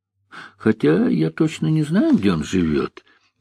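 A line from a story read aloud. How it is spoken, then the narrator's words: Uncertain. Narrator (Russian): неуверенно сказал Черняк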